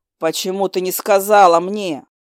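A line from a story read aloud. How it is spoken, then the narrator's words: Demonic growl. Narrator (Russian): Демон натурально зарычал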